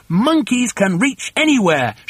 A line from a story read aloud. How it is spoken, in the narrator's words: shouted Mugglewump